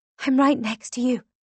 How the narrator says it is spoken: I whisper

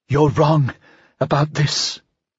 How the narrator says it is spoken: she breathed

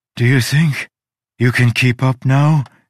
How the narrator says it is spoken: gasped

